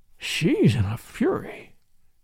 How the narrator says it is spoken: he murmured

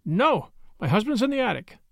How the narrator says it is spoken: In her fright, she blurted out

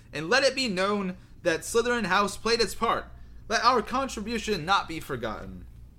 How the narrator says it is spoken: Phineas Nigellus called in his high, reedy voice

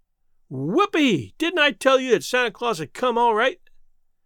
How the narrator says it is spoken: shouted the delighted Jimmy

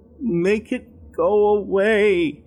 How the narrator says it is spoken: he timidly whined

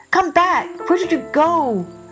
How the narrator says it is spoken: the youth cried

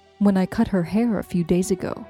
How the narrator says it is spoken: said Curry

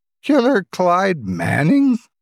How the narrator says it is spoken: She chuckled in sarcasm

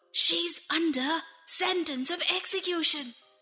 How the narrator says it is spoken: said in a low, hurried tone, and whispered

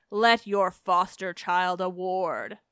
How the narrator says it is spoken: she laughs and taunts her

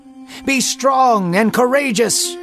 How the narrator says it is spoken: Joab yelled again

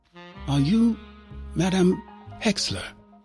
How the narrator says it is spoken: Her voice was soft

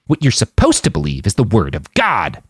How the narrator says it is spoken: the man snarled

